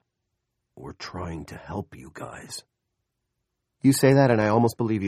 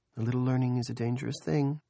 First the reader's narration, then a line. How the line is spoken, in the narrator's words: Julia said dreamily